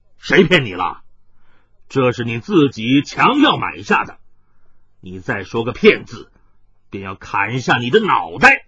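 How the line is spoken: Stern, harsh. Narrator (Chinese): 海大少面色一沉，厉声说道

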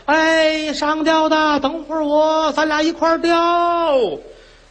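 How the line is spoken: Distant shout. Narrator (Chinese): 远处喊

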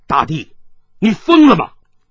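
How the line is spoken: Stern, sharp. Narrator (Chinese): 一个人厉声道

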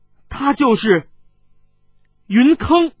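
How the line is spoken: Loud voice. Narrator (Chinese): 当下大声道

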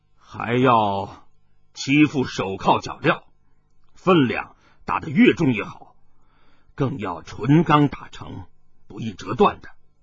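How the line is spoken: Deep low voice. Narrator (Chinese): 那锦衣少年沉声说道

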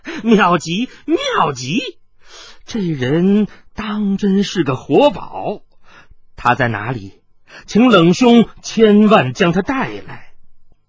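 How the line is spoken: Delighted giggling. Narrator (Chinese): 风九幽似是喜得心痒难搔，咯咯的笑道

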